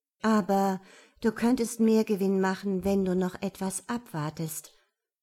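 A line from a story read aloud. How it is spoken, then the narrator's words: Forced calm. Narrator (German): sagte Annette so ruhig wie möglich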